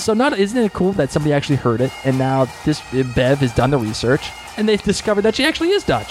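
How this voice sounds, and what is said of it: Boston accent. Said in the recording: “We're just stuck in my Boston accent.”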